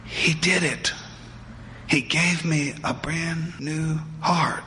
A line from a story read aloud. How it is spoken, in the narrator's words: Alex whispered